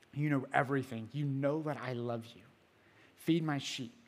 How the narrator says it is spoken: Jesus said

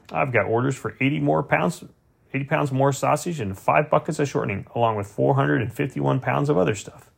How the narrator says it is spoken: told me happily

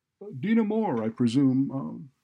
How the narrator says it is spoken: he said cheerfully

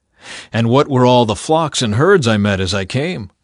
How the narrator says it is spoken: Esau asked

